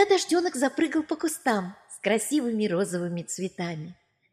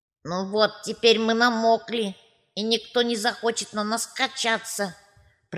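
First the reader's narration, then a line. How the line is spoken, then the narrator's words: Creaky swing voice. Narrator (Russian): проскрипели качели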